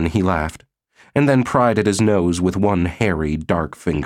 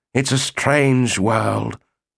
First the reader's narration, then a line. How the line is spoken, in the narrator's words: murmured